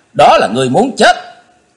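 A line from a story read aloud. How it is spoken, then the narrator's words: Harsh shout. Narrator (Vietnamese): Chí Tôn quát gian cả tràng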